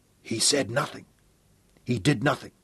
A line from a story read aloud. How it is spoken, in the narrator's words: Sir Francis whispered hoarsely